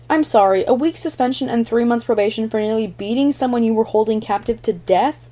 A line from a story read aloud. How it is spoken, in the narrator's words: Dick burst out angrily